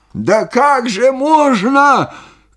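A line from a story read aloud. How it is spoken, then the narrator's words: Amazed shout. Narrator (Russian): крикнул он, изумляясь моему спокойствию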